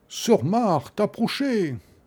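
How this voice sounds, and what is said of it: Big comic voice. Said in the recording (French): “Avec une grosse voix comique.”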